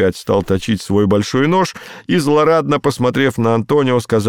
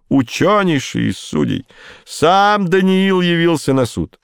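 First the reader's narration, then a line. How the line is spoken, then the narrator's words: Exclaiming again. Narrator (Russian): Шейлок снова воскликнул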